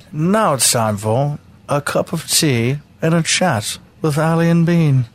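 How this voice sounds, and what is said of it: Slow put-on British accent. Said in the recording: “say it in a British accent ... If you slow it down like that”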